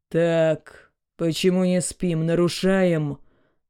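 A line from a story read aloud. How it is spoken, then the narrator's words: Menacing thundering officer. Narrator (Russian): грозно прогремел один из членов правопорядка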